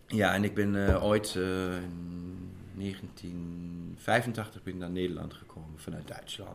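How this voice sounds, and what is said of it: Light German accent in Dutch. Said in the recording (Dutch): “jullie accenten verraden dat jullie niet in Nederland zijn opgegroeid ... Heel licht ... Dus ik heb een Prins Bernhard eh, accent.”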